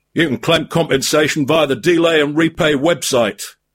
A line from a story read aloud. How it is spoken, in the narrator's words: growled the cave troll